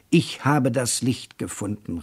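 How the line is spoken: Exclaiming. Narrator (German): rief aus

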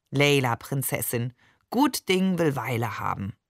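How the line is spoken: Soothing purr. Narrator (German): vertröstete er mich wie ein weise schnurrender Kater

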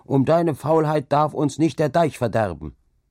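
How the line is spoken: Called out. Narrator (German): rief er dann

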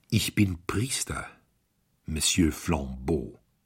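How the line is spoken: Plain. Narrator (German): sagte Brown

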